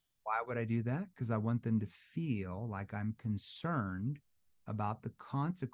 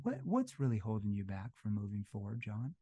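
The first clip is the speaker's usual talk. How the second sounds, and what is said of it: Lowered, concerned, empathetic tone. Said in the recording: “lower my voice into more of a concerned tone ... that's a concerned tone, a tone that shows more empathy”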